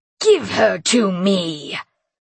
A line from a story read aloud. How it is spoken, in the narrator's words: the Grimlock roared